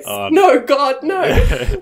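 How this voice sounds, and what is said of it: Imitates a TV character's voice. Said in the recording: “in my Michael Scott voice.”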